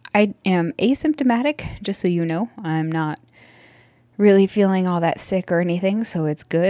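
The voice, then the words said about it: Breathless, out of breath while talking. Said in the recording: “how out of breath I sound on this recording ... I don't know why I'm so out of breath just from talking”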